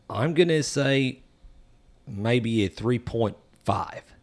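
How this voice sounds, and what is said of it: Put-on Australian accent. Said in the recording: “in my best Australian accent”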